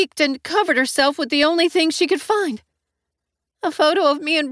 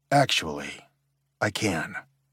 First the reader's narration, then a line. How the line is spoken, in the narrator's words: I said as quietly as I could